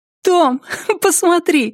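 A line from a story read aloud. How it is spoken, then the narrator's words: Laughing. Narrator (Russian): смеясь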